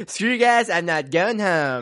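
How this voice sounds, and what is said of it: Cartoon character voice impression. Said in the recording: “I actually do a pretty good Cartman impression. ... Oh, it's pretty good.”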